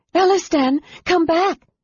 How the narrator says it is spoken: Lorana cried fearfully

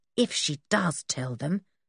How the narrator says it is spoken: said Dick under his breath

